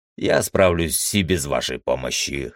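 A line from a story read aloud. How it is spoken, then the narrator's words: Snort. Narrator (Russian): хмыкнул я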